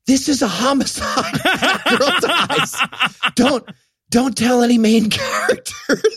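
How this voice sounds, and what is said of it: Stage whisper. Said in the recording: “I'll do a stage whisper.”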